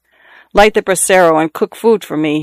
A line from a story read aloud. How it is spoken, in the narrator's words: he told her in the same peremptory tone